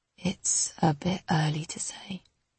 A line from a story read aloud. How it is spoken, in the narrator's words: he says, his voice frail